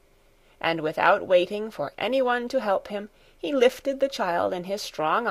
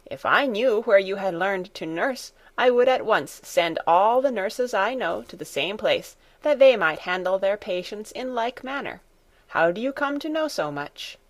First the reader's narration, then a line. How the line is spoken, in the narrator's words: she exclaimed